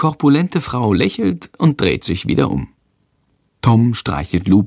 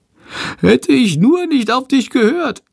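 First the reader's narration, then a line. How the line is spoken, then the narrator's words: Whining lament. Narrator (German): jammert Chandor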